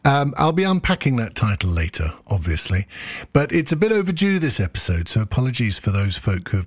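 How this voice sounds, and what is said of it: Usual voice. Nothing is said of it.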